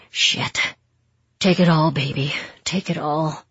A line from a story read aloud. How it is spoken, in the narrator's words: he groaned